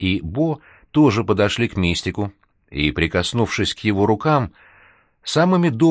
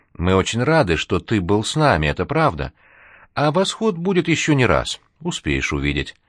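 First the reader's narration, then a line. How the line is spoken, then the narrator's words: Tender, almost unaccented speech. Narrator (Russian): Натали ласково, практически без акцента, сказала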